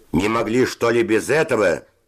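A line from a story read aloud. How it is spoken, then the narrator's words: Shouting. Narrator (Russian): закричал Севочка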